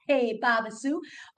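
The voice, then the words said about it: Weak attempt at Texan accent. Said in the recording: “I'm terrible at doing other accents ... let's move into this little Texan accent and see if I'm better at doing that ... maybe I'll just stick to my Australian accent”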